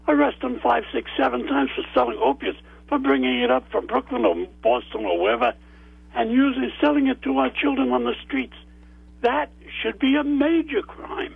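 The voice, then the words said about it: Loud, emotional shouting. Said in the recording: “I'm shouting. ... I'm in tears over it.”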